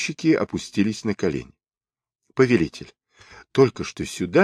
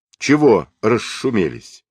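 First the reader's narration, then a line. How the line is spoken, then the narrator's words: Sharp rebuke. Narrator (Russian): Он прикрикнул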